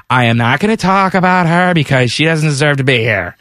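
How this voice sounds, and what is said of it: Imitates another person's voice. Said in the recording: “do a good Johnny Weir impression? ... That was very good.”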